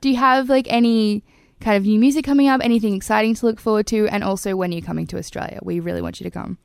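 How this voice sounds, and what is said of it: Australian accent. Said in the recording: “My Aussie accent's so terrible ... It's not designed for my accent.”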